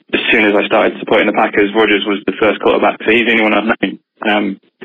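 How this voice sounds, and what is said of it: Non-American accent. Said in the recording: “as you can tell from my accent, I'm not American”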